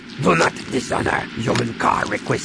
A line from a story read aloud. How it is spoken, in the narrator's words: he growled in her face